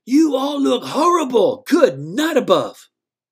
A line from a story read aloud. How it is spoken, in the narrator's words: He yelled at the TV